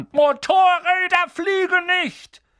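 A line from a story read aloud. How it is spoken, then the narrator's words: Angry shouting. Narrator (German): schrie Harry an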